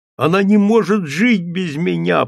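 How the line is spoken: Moaning. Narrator (Russian): простонал он

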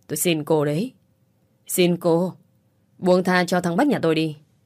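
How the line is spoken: Woman wailing. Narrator (Vietnamese): Người phụ nữ gào lên

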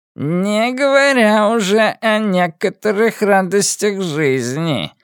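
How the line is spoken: Purring. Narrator (Russian): промурлыкал Энди

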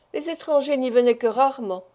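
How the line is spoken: Sighing reply. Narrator (French): répliqua Maître Koltz avec un soupir

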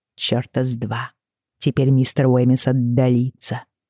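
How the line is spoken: Whisper. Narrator (Russian): шепнула я Бриане

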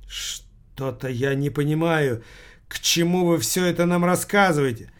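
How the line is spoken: Trembling old woman's voice. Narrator (Russian): спросила старуха Юникова дрожащим голосом

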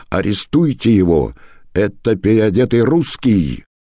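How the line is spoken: Shouting. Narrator (Russian): изменник закричал, обращаясь к караулу на воротах

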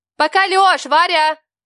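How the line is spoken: Hurried shout. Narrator (Russian): Успела крикнуть я за секунду до того, как входная дверь закрылась

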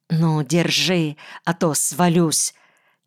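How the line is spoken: Quiet irritated command. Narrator (Russian): Тихо, но раздраженно приказала она

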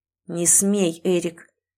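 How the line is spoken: Hissed through teeth. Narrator (Russian): прошипел Арно сквозь зубы

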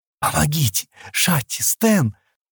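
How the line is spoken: Choking, wheezing cry. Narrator (Russian): Она закашлялась, захрипела

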